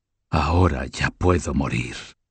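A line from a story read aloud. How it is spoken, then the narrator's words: Tearful murmur, queen. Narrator (Spanish): Enjugándose las lágrimas, la reina murmuró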